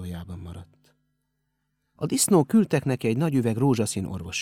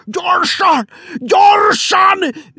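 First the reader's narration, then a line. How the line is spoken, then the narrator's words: Loud yelling. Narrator (Hungarian): üvöltötte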